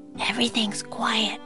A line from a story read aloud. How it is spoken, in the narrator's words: she whispered